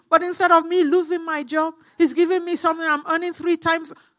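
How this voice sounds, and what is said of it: Shouting, screaming preacher. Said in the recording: “when you see me screaming, shouting ... why am I shouting?”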